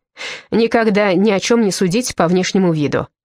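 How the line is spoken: Snorting old woman. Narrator (Russian): фыркнула старуха

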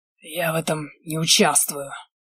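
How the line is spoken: Hollow, flat voice. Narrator (Russian): глухим пустым голосом отозвался наш патрон

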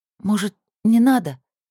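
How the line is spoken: Trembling voice. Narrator (Russian): дрогнувшим голосом спросила Алиса

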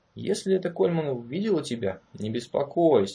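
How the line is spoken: Calm reply. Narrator (Russian): спокойно ответил его Марро

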